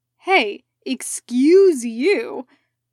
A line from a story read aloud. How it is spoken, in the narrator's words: Jack snapped, looking more irked than Selmec would expect